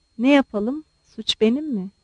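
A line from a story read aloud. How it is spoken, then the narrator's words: Muttering. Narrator (Turkish): diye mırıldandı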